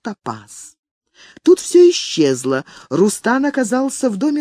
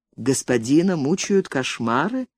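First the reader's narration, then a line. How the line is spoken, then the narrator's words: Calm question. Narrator (Russian): спокойно спрашивает Топас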